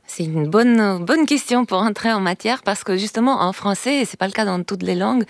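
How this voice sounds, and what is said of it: Slight foreign accent. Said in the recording (French): “Vous avez un petit accent.”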